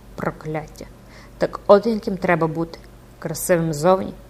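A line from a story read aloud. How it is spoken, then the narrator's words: Whisper through gritted teeth. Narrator (Ukrainian): прошепотів, заскриготівши зубами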